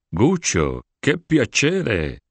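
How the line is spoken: Exclaimed. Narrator (Spanish): exclamó

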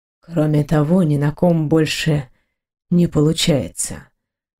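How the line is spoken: Man adding quietly. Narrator (Russian): добавил мужчина тихо

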